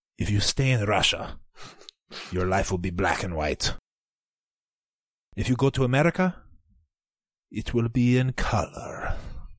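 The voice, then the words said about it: Put-on Russian accent. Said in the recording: “I'm going to do it in a Russian accent.”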